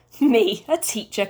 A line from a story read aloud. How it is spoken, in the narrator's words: Corky chuckled to himself